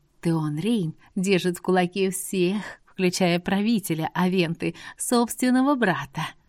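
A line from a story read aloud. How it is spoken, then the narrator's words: Passionate, quiet, secretive. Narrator (Russian): Страстно, но тихо и оборачиваясь по сторонам, чтобы нас не услышали лишние уши, произнесла она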